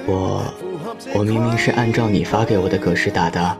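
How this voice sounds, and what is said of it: Quiet, hesitant soft voice. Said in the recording (Chinese): “有点不知所措地低着头，小声地说道”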